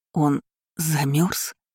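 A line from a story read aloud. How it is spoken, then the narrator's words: Frightened whisper. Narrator (Russian): испуганно прошептала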